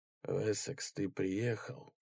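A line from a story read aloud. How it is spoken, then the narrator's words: Quiet. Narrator (Russian): негромко сказал Рой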